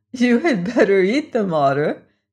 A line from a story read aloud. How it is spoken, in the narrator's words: said Wana, who was still choking with laughter